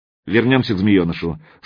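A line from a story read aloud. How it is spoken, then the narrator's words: Dry reminder. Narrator (Russian): сухо напомнил Мировой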